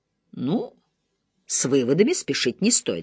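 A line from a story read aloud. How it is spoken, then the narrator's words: Plain. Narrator (Russian): сказала мисс Марпл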